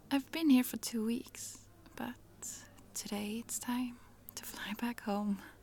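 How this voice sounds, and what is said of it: Swedish accent. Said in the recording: “Did my accent give it away? Yes, I'm visiting from Sweden.”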